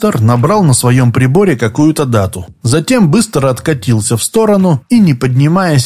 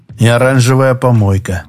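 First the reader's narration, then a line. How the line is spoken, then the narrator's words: Sighing. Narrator (Russian): вздохнул Олег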